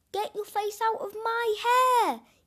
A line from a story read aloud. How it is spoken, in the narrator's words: yelled Hamish